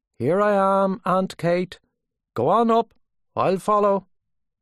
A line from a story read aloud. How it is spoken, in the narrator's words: Gabriel called out from the doorstep